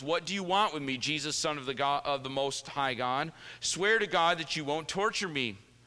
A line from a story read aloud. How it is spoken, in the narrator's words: He shouted at the top of his voice